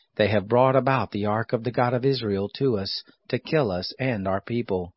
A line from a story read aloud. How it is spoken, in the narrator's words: the Ekronites cried out, saying